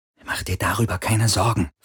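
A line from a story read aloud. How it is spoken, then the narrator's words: Impatient whisper. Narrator (German): flüsterte Kirai, hörbar ungeduldig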